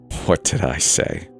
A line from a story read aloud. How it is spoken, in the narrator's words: Dad chuckled in my ear